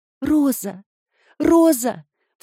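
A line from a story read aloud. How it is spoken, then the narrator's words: Sobbing. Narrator (Russian): всхлипывала она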